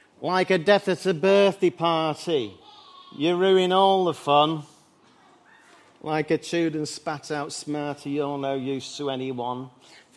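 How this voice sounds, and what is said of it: Imitates another person's voice. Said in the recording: “quite a good impression ... Being a Mancunian”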